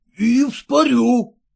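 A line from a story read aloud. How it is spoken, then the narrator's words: Near shout. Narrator (Russian): почти вскрикнул Герасим Андреев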